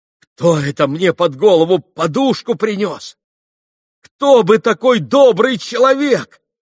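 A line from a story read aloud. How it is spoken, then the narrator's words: Ecstatic grateful tearful exclamation. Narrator (Russian): воскликнул он с каким-то восторженным, благодарным чувством и плачущим каким-то голосом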